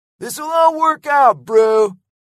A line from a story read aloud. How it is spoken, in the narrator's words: yelled Lego